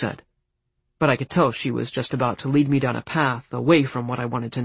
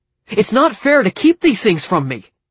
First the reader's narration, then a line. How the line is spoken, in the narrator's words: I shouted